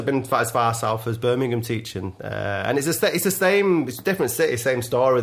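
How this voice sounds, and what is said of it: Mancunian accent. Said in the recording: “you have to slow down your talk. Very the, the Mancunian accent.”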